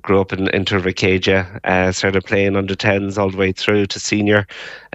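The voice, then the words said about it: Irish Mayo accent. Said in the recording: “this Mayo accent”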